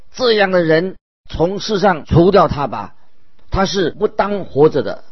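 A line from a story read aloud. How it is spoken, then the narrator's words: Crowd, loud. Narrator (Chinese): 众人高声说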